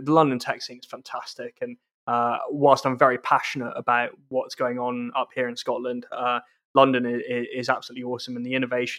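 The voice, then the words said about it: Southeast English accent. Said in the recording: “you can tell from my accent, I grew up in the southeast of England”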